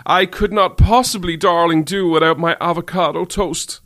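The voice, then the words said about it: Put-on posh upper-class London accent. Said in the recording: “a posh, middle-class, upper accent from, you know, from London”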